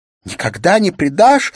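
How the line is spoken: Sobbing shout. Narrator (Russian): закричала Улла со всхлипыванием

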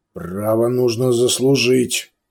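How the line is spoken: Growl. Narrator (Russian): прорычал Сантьяго

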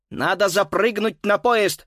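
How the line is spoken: Excited shout. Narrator (Russian): взволнованно крикнул

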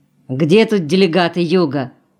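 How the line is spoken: Deep voice from corridor. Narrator (Russian): басил знакомый голос в коридоре

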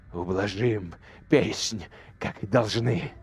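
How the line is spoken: Hoarse hiss, restrained. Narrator (Russian): хрипло прошипел Тиль, заставляя себя не кричать

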